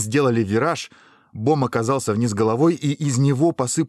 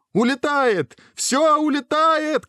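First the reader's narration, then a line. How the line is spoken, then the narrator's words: Shouting. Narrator (Russian): кричал Бом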